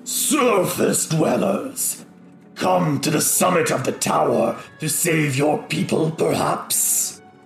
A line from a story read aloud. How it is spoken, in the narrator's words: he kind of lets out a rumbling laugh and he says